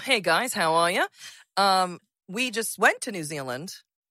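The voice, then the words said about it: Put-on Australian New Zealand accent. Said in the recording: “we love an Australian New Zealand accent”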